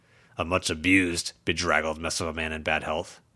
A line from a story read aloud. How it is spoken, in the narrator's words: Charles grumbled